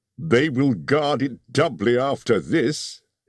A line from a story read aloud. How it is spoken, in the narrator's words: he laughed